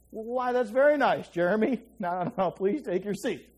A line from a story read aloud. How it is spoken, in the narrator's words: She stammered